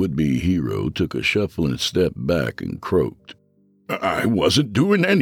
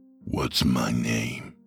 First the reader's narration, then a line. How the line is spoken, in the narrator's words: He whispered